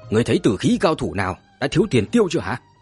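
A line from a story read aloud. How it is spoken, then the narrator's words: Shouting. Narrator (Vietnamese): Đại đầu nhướng mày mà quát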